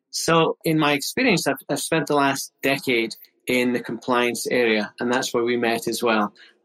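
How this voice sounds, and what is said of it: Scottish accent. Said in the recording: “you might guess from the accent, I'm originally from Scotland, a Scottish chartered accountant”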